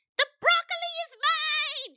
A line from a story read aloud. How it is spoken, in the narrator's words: bawled